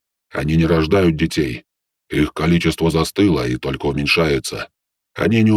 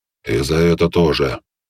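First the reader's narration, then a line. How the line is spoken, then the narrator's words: Grumbling. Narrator (Russian): проворчал Белый Дьявол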